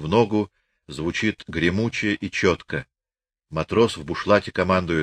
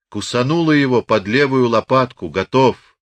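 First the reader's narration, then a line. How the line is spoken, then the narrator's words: Loud shout. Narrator (Russian): Громко, чтобы слышала вся сотня, один кричит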